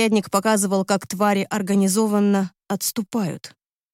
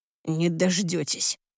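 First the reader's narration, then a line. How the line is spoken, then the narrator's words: Hoarse growl. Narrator (Russian): хрипло рыкнул Андерс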